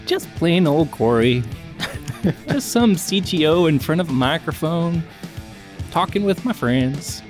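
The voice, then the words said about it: Unusual put-on accent. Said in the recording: “has an interesting accent this week.”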